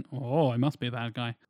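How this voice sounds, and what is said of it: Put-on Russian accent. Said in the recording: “In a Russian accent.”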